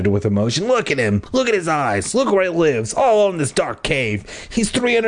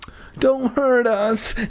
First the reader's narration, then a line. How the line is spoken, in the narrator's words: Nat wailed